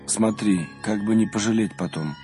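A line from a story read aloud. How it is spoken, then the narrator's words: Tired. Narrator (Russian): устало сказал отцу Рафаилу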